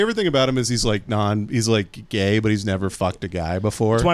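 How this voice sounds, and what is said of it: Usual voice. Nothing is said of it.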